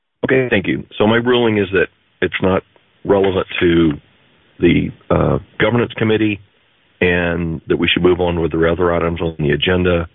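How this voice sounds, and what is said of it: Congested, unwell-sounding voice. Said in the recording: “I have a cold. I'm not speaking real well”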